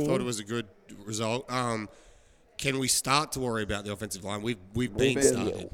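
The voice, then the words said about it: Strained, poor-sounding voice. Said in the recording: “my voice is so bad”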